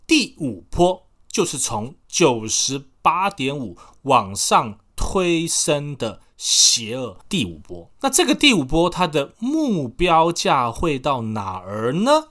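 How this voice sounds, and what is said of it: Put-on retroflex Mandarin accent. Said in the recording (Chinese): “口音都开始带卷舌了”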